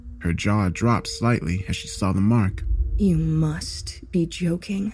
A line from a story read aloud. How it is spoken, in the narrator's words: she said, her voice low